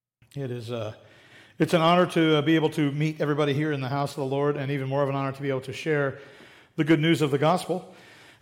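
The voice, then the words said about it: Voice not yet recovered, strained. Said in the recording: “my cough is completely gone and my voice is fully restored. Nope, it's not.”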